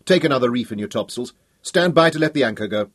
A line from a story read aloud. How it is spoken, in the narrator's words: Hal barked